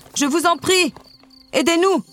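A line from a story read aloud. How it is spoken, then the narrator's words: Shouted. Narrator (French): cria le roi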